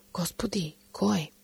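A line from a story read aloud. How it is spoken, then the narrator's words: Quiet question. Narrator (Bulgarian): Йоан ... го пита тихо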